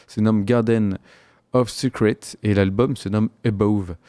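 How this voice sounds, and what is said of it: French-accented English pronunciation. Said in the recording (French): “voyez mon super accent anglais”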